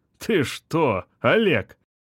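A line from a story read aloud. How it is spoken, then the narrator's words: After laughing. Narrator (Russian): Отсмеявшись, заговорил Бергман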